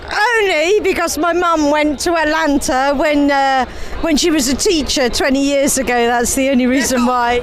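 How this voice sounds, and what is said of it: English accent. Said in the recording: “Aren't these accents beautiful? I love hearing the English accent.”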